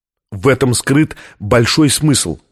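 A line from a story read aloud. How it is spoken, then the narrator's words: Plain, scientist. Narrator (Russian): ответил ученый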